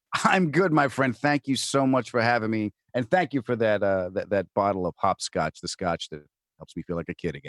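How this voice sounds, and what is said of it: New York accent. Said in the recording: “the envy of New York accents everywhere”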